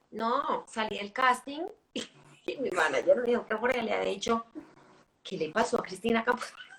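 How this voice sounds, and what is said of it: Small, girlish voice. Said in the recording (Spanish): “yo tengo voz de niña chiquita”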